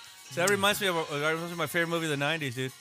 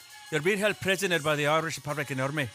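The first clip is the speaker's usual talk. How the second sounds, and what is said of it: Put-on Irish accent. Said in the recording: “That's a pretty good Irish accent, huh? I've been working on that ... That's my week-long Irish accent.”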